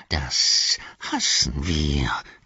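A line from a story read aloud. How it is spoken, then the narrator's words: Hissing. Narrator (German): zischte er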